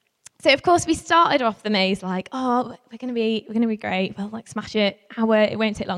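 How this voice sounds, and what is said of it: Usual voice. Nothing is said of it.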